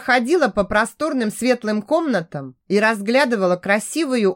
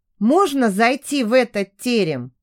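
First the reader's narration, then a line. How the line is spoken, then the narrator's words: Plain. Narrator (Russian): спросила Даша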